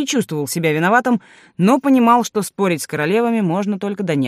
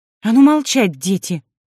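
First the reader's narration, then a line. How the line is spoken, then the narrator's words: Exclaimed. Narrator (Russian): воскликнула она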